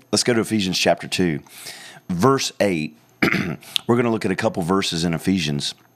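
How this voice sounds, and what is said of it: Slightly hoarse voice. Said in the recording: “I'm just a little bit hoarse today”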